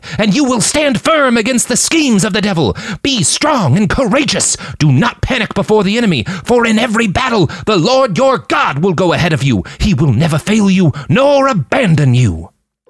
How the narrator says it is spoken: he cried

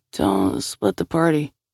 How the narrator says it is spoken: he muttered

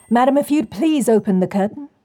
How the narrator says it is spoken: Walker called out

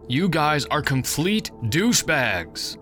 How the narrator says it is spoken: yelled

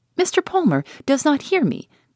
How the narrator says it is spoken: said she, laughing

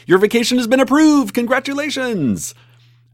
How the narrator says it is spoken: they shout

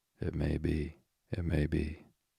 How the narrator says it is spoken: The raven nodded very gravely and said

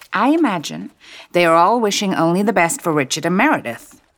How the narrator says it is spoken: she said firmly

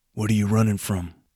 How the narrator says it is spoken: the vagrant suddenly asked in his growly voice

